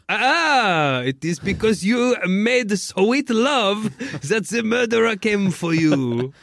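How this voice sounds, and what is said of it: Poirot accent drifting toward Borat. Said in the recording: “Your Poirot accent at points was getting close to Borat.”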